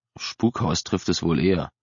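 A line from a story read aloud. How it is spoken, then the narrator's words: Murmuring to younger brother. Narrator (German): raunte Sean seinem jüngeren Bruder zu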